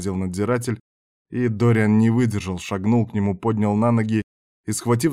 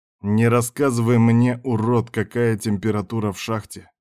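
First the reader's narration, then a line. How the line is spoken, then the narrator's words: Growl. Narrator (Russian): прорычал он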